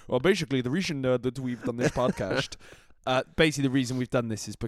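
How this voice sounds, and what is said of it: Put-on Dutch accent. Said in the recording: “I'm just going to start talking in a Dutch accent.”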